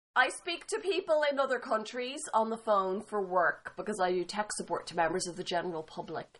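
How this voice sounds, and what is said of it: Irish accent. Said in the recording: “oh, your accent is so cute. I love your accent. Are you from Ireland? And I'm like, yes.”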